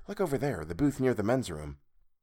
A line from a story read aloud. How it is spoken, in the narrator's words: she whispered